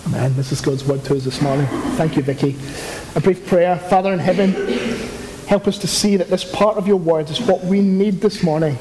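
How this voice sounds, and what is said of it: Non-native English accent. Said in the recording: “someone with my accent ... English is not your first language, like me”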